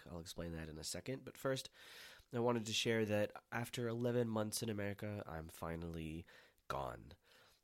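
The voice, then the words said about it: Voice sounds sick, not perfect. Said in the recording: “my voice is not perfect because I have been sick”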